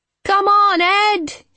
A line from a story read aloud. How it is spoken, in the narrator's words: she shouted